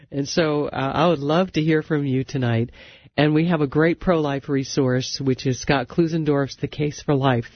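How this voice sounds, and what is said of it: Congested voice from a cold. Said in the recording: “I apologize that I, yes, have a cold. You can maybe hear it in my voice”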